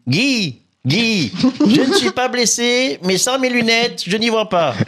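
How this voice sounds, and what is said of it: Poor impression of Léon Zitrone. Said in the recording (French): “Léon Zitrone ... Désolé pour l'imitation. ... Cette pauvre imitation. ... Ah, très pauvre.”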